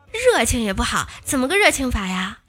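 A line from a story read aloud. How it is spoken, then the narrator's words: Plain. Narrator (Chinese): 表哥说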